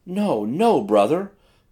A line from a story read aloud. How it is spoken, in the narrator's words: pleaded the girl